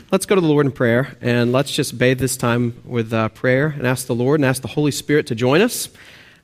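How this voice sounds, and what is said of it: Texas and Oklahoma accent. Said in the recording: “if you can hear my accent, I'm actually from Texas and Oklahoma, Texas, those areas. And so please forgive my accent.”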